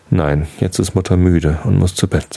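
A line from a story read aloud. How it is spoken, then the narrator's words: Plain. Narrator (German): sagte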